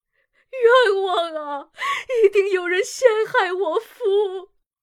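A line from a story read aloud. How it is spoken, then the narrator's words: Loud wailing sob. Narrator (Chinese): 姬平 放声大哭道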